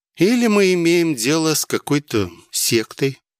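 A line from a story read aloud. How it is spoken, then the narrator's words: Thoughtful. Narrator (Russian): задумчиво высказала мысль Вилкина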